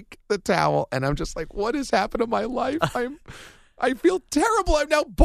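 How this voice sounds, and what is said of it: Usual voice. Nothing is said of it.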